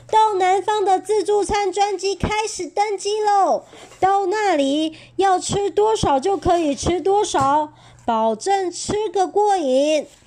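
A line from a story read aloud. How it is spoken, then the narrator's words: Clamoring. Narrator (Chinese): 飞行员嚷嚷着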